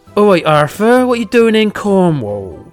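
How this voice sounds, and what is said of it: Put-on Cornish accent. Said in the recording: “I'm going to do my Cornish accent. This is what you talk like.”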